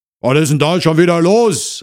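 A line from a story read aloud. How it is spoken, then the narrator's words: Man calling from inside. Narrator (German): rief eine Männerstimme aus dem Inneren der Wohnung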